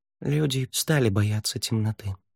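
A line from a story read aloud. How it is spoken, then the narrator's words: Quiet. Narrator (Russian): тихо сказал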